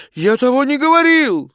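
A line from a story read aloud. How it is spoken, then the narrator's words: Shouted. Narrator (Russian): закричал он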